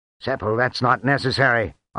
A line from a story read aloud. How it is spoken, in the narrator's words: Onyx said harshly